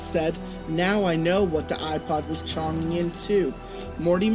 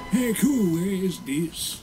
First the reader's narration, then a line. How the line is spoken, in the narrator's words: He asked in an emo voice